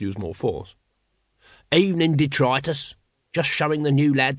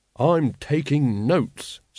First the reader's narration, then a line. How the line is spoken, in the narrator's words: said Carrot grimly